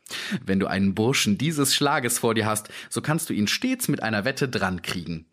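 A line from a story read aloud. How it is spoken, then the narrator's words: Plain. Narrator (German): sagte er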